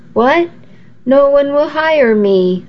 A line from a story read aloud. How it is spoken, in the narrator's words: I cried